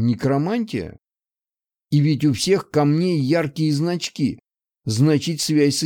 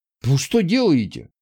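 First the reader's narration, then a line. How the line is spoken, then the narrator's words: Exclamation. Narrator (Russian): воскликнул я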